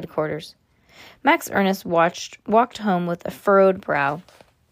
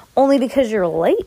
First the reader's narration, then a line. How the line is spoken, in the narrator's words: he replied irritably